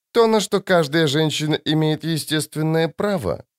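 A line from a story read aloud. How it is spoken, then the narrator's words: Dry. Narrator (Russian): сухо ответила Коралл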